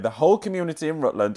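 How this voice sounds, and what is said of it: Reads aloud in a Yorkshire accent. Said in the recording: “I don't know why I'm reading this in a Yorkshire accent,”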